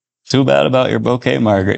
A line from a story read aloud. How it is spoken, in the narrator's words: David chuckled